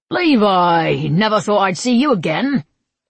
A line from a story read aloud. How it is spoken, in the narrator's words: Grady said with a laugh